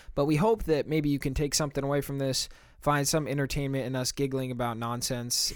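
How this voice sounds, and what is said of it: American accent. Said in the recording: “We're both American, if you can't tell from our accents.”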